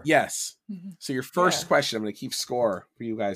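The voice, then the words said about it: Hoarse, shredded sick voice. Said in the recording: “I'm getting over something and my voice is just totally shredded... you're sick”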